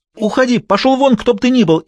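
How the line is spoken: Hysterical scream. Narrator (Russian): истерически закричала она

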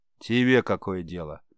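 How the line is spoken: Angry smirk. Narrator (Russian): Борец зло усмехнулся

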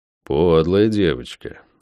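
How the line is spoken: Unbothered snort. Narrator (Russian): хмыкнул я, впрочем, не испытывая от ее поступка никакого негодования

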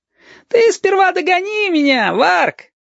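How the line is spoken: Laughing. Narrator (Russian): Засмеялся Женька

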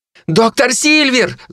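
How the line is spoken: Shouting again. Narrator (Russian): закричали снова

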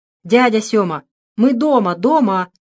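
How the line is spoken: Yelling. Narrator (Russian): завопил Федька

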